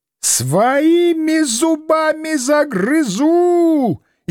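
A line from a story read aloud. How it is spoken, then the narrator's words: Demon howling hysterically. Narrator (Russian): истерично взвыл нечистый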